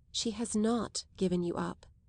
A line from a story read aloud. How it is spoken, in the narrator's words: Isabel said in a low tone